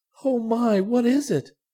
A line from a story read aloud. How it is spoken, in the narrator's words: cried Violet